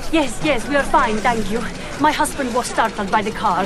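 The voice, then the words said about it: Italian accent. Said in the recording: “Are you Italian? ... I'm afraid my accent is not always good. ... Oh, no, no, it is very good.”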